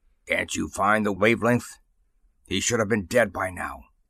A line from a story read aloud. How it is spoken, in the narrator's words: The android with the staff said harshly